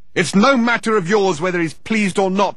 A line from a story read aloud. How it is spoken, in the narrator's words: shouted Thor, disturbing the foundations of the building once more